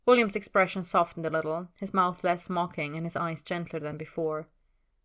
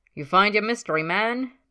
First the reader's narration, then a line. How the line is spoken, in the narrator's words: Ted called out across the room